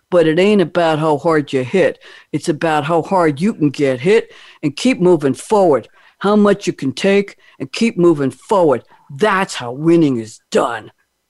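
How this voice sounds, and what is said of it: Rocky Balboa accent impression. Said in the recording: “I'm going to try to do this in a Rocky accent. ... I hope I don't butcher this. ... How bad was that ... That was excellent.”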